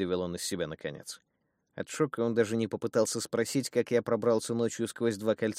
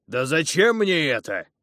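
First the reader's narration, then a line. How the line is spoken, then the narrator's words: Nearly shouting, big man. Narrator (Russian): едва не закричал здоровяк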